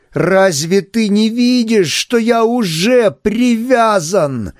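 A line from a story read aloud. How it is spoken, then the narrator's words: Shout, then lowered angry trembling voice. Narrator (Russian): закричал я, понизил задрожавший от гнева голос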